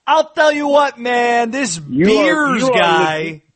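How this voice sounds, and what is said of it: Spot-on Jon Gruden impression. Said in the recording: “in your John Gruden voice ... Dude, you are spot on.”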